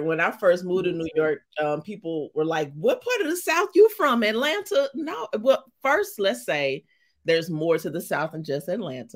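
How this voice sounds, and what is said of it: St. Louis, Missouri accent. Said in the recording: “That's my St. Louis accent.”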